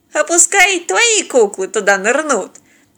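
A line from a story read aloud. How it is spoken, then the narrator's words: Cheerful, amused bearded man. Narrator (Russian): весело предложил бородач, продолжая наслаждаться происходящим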